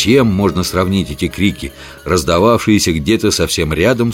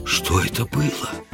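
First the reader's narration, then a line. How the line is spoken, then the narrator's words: Whispered question. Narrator (Russian): шепотом спросил я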